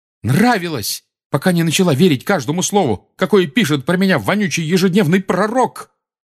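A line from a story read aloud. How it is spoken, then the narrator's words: Shouting, voice breaking. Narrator (Russian): крикнул Гарри срывающимся голосом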